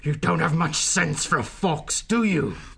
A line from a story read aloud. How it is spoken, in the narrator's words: The powerful otter snarled menacingly into his ear